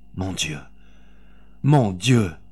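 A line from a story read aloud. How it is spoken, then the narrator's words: Moaning. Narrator (French): gémit Honorine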